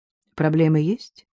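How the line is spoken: Dry, restrained hostility. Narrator (Russian): Таранцев, стараясь скрыть свою неприязнь, спросил достаточно сухо

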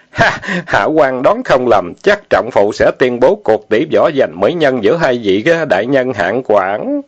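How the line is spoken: Smiling. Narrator (Vietnamese): Lao Ái mỉm cười nói

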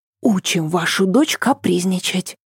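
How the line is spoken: Whisper. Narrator (Russian): шепнула она

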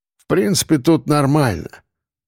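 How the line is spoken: Grumbling. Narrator (Russian): проворчал он

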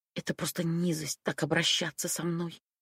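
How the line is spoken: Angry whisper. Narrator (Russian): Прошептала я и неожиданно разозлилась

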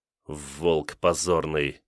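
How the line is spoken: Muttered through teeth. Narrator (Russian): сквозь зубы процедил Ганыкин

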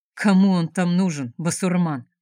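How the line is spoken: Grumbling. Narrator (Russian): проворчал Вайда

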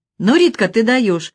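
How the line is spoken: Admiring exclamation. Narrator (Russian): восхищенно воскликнул еще один только что подъехавший роллер

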